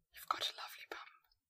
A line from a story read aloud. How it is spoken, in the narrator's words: she whispered